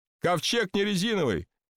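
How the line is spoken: Shouting. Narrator (Russian): кричал Ной Архипович

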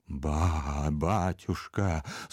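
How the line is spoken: Convulsive whisper. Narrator (Russian): судорожно прошептал Иона

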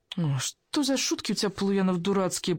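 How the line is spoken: Young woman moaning. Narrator (Russian): простонала девушка

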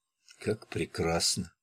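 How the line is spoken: Whisper. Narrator (Russian): прошептала она

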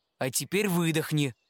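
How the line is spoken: Plain. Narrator (Russian): сказал он

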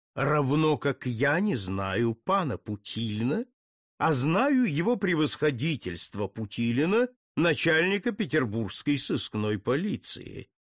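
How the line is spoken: Mocking. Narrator (Russian): насмешливо ответил ему Путилин

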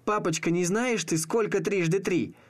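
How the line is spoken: Squeaky little girl. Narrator (Russian): девчонка пропищав

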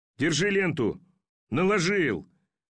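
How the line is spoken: Mocking drunken shout. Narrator (Russian): крикнул Жорко насмешливо и пьяно

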